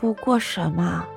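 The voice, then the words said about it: Quiet, soft question. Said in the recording (Chinese): “他小声的问着谢轩”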